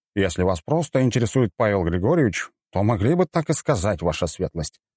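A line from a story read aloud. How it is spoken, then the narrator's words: Smirking grunt. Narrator (Russian): хмыкнул Большаков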